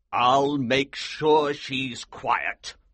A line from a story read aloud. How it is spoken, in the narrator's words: the Colonel said grimly